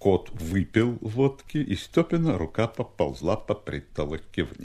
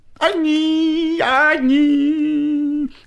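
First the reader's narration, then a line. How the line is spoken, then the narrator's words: Goat-like singing voice. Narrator (Russian): козлиным голосом запел длинный клечатый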